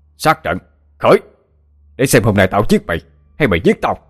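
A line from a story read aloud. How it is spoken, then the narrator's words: Shouting. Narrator (Vietnamese): Ông hét lên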